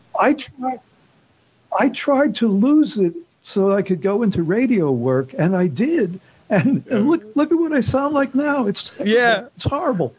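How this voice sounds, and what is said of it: Strong New York accent. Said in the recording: “the longer I've been here, the stronger my New York accent becomes.”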